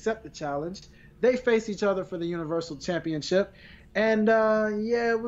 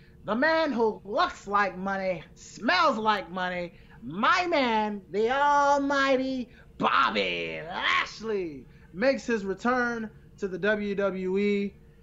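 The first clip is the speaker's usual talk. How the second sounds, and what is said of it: Leo Rush wrestling announcer voice. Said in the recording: “in my Leo Rush voice.”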